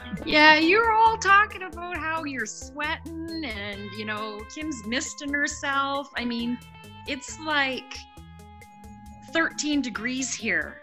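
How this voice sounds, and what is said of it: Canadian accent. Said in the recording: “she has an adorable accent ... Listen to her Canadian accent, it's just so freaking cute”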